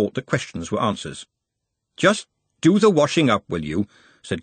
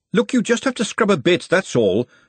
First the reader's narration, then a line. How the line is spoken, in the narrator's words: she snapped